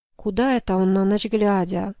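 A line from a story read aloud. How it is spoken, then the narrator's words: Whispered question. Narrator (Russian): Шепотом поинтересовался Ефрем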